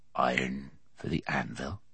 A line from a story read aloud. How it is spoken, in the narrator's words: said the smith softly